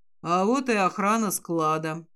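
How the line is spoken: Satisfied, grim. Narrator (Russian): удовлетворенным мрачным тоном заявляет Нейт

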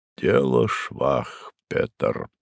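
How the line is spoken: Muffled and solemn. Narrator (Russian): глухо и торжественно произнес наконец он

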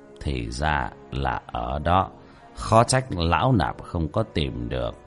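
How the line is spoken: Monk muttering. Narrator (Vietnamese): Bất Táng Hòa Thượng lẩm bẩm

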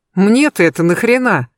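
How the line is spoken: Indignant question. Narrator (Russian): возмущенно спросил он

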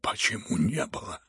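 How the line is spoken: Embarrassed muttering general. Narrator (Russian): пробормотал генерал, и краска бросилась ему в лицо

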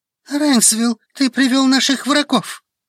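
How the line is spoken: Whispered. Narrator (Russian): что-то шепнул на ухо

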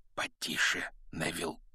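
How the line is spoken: Whispered. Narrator (Russian): шепнул

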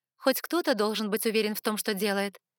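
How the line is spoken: Sharp. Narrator (Russian): резко ответила я

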